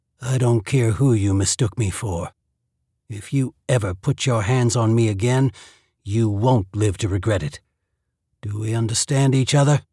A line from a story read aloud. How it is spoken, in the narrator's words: he said in a low and sinister voice